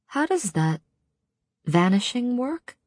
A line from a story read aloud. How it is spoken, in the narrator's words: I said softly